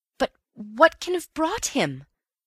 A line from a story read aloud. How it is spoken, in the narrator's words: I cried miserably